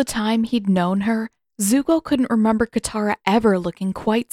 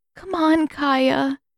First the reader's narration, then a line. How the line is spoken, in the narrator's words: Katara pleaded